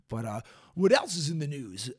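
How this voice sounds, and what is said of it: Smooth FM radio announcer voice. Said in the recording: “That's my FM radio voice.”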